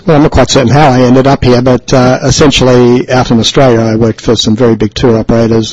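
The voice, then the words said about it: Australian accent. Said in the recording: “a gullible Australian ... you're obviously from your accent”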